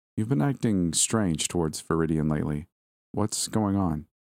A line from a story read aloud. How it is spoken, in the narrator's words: spoke calmly